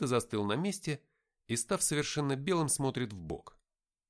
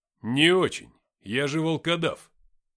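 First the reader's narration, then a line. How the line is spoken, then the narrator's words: Calm. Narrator (Russian): спокойно ответил я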